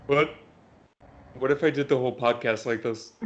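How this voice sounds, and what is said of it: Patrick Star cartoon voice. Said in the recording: “in a Patrick Starr voice”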